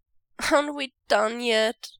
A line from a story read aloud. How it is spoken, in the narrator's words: Wei Ying whines